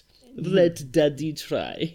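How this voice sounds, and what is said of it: Attempted German accent, sounds Russian. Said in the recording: “with a German accent ... Oh, that was more Russian, that one. ... I can't do a fucking accent.”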